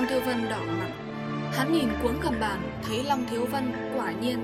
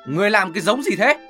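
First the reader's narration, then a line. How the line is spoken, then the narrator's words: Shouted question. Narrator (Vietnamese): Long Thiếu Vân quát hỏi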